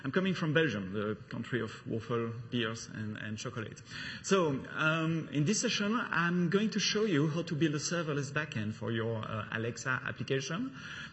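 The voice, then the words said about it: Slight French accent. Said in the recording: “as it's probably not obvious from my accent ... with a slight touch of French accent”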